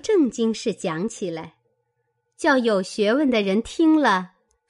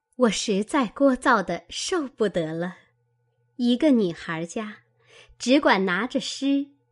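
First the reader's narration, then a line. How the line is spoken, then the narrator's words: Sly sneering laugh. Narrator (Chinese): 宝钗阴笑道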